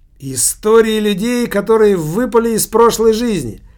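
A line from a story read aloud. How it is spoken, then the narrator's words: Bursting out laughing. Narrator (Russian): Килька опять расхохотался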